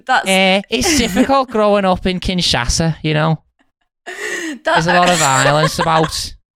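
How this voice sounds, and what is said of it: Put-on Scouse accent. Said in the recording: “doing an impression of someone from the Congo and I just did a Scouse accent”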